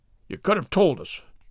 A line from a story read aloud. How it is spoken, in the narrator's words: growled Mr